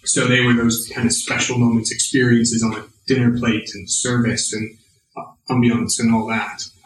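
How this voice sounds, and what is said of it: American accent. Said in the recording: “judging by your accent, was in the US?”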